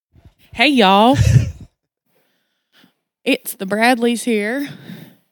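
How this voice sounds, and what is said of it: Fake Southern accent. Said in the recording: “That's my fake, fake voice, southern voice there.”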